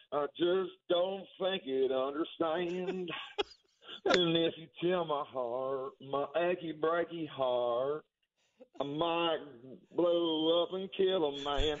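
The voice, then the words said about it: Sung with a country twang. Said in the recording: “You got a little twang in you.”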